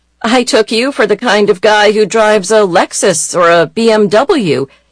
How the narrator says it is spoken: she said in a teasing tone

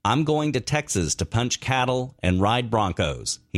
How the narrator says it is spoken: he had said

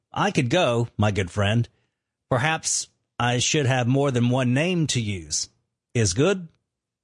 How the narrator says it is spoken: calmly said

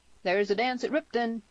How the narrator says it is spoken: called out Tierney

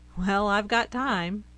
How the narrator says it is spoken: a revitalized Benson boomed through the computer screen

